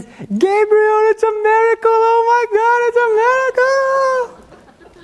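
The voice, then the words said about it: Imitates another person's voice, ecstatic. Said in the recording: “It wasn't a good impersonation of her, but she was very ecstatic”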